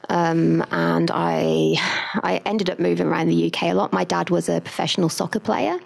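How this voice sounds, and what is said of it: Strong English accent. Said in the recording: “my very, very pommy accent ... I was born in the UK.”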